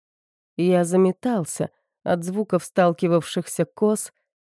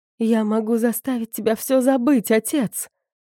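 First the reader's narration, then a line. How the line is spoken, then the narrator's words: Pleading. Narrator (Russian): взмолилась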